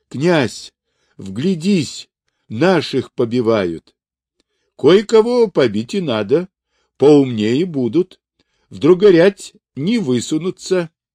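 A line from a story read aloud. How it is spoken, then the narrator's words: Nearly shouting. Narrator (Russian): Захарий почти закричал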